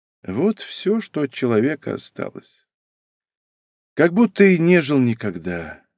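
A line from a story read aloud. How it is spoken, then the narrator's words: Sighing. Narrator (Russian): вздохнув, промолвила Лидия Адамовна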